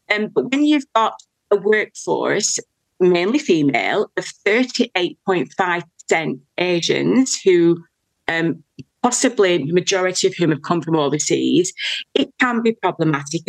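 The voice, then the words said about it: British accent, Queen's English. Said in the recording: “I've got an accent because I'm from the UK. So, but I do speak the Queen's English”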